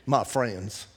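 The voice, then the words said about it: Imitated Texas accent. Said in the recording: “Only he'd say it with a Texas accent.”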